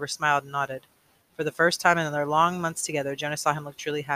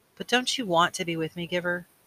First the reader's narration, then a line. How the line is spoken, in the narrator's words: Jonas asked sadly